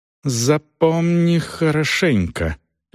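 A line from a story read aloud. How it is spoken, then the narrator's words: Icy cold voice. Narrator (Russian): ледяным голосом проговорила Дорс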